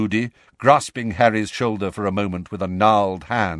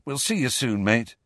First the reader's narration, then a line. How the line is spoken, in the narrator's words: said Ron anxiously